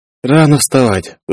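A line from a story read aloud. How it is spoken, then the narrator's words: Tired reply. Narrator (Russian): устало откликнулась девушка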